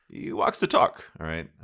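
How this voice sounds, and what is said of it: Poor Shad Khan impression. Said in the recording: “my terrible Shad Khan accent”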